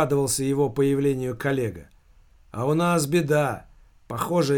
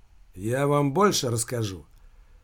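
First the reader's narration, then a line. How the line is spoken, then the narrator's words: Gloomy tone. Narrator (Russian): мрачным тоном произнес Филипп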